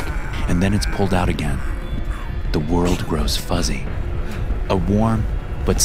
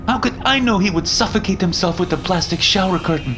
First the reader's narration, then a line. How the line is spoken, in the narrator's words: Zoe shouts